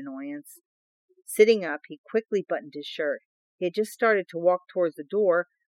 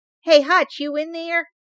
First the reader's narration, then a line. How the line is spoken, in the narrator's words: Starsky's voice called loudly